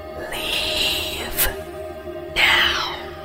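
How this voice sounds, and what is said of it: Soft whisper. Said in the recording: “a soft whisper in my ear as though someone was standing directly behind me”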